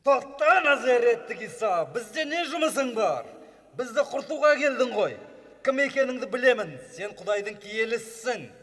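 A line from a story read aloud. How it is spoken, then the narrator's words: Shouting. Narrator (Kazakh): деп айқайлады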